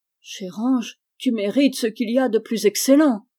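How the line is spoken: Father exclaiming. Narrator (French): s'écria le père

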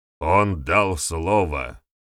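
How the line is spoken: Angry. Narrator (Russian): сердито произнес Вернидуб

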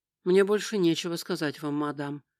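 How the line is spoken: Cold reply. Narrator (Russian): холодно ответил он

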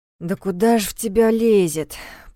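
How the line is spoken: Grumbling. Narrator (Russian): проворчала Лера

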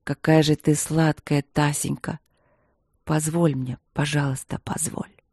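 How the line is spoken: Trembling, hoarse low moaning. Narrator (Russian): Она дрожит и хрипло постанывает своим низким голосом, как кошечка

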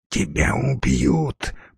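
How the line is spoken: Hoarse young woman. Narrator (Russian): прохрипела девушка

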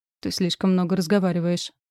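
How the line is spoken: Cold remark. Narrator (Russian): холодно заметил император

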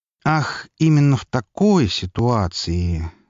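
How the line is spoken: Thoughtful drawl. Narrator (Russian): задумчиво протянул князь

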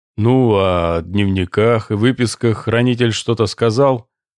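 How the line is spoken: Plain. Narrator (Russian): спросил капитан-лейтенант

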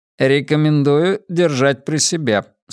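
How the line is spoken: Plain. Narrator (Russian): сказал корабль

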